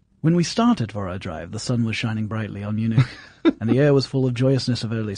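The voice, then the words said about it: Put-on English accent reading aloud. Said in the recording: “you to do this in an English accent ... I'll do this in English because most of the characters in Dracula were actually English”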